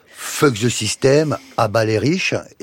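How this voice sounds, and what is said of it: Strong French accent in English. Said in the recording (French): “avec un accent ... bien français”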